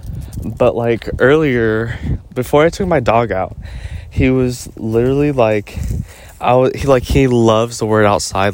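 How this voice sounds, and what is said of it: Out of breath, panting. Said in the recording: “Do I sound out of breath? I'm walking. ... For some reason, I feel like I'm panting. ... I can only breathe out through my mouth and in through my mouth right now.”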